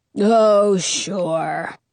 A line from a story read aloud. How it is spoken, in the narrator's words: the reindeer grumbles